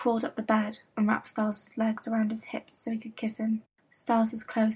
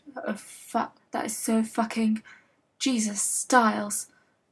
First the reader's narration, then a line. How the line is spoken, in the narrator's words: Derek ... groaned